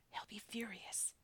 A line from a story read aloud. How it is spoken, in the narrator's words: the eldest whispered